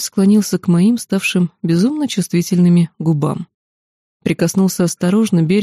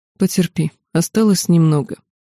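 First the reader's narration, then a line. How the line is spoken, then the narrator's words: Cold even tone. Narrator (Russian): Супруг … ровным тоном произнес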